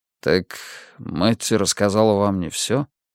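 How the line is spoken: Deep sigh, then asking. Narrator (Russian): Он глубоко вздохнул, потом спросил

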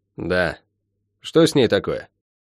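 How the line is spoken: Lazy drawl. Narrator (Russian): лениво растягивая слова, произнесла

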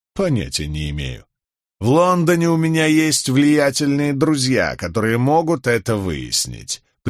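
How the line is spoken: Old man, through teeth. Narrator (Russian): процедил старик

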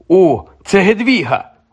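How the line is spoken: Exclamation. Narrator (Ukrainian): вигукнув Гаррі

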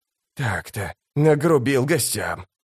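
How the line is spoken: Uncertain mutter. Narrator (Russian): пробормотал он с неуверенной улыбкой

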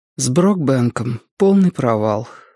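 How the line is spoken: Forced out reluctantly. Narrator (Russian): выдавила Робин

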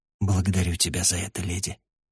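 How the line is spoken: Quiet. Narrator (Russian): негромко ответил я

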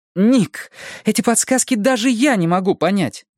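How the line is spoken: Exclamation. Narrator (Russian): воскликнула Го

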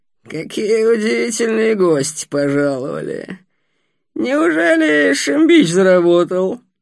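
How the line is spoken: Old man's hoarse creaky voice. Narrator (Russian): Говорил старик по-русски, без акцента, хрипловато скрипучим голосом

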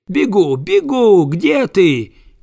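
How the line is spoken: Shouting dog. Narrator (Russian): крикнул пес

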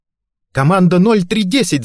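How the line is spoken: Yelling into phone. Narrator (Russian): заорала Флоринда в телефон

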